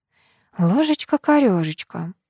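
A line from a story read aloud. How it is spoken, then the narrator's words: Mumbling. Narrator (Russian): пробормотала я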